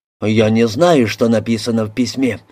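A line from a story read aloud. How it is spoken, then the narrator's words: Mumbling. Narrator (Russian): забормотал Мильс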